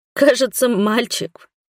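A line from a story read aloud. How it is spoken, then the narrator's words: Strained, holding back relieved tears. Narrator (Russian): выдавила на вопросительный взгляд Бруга и уткнулась носом в вонючее одеяло, чтобы не разреветься от облегчения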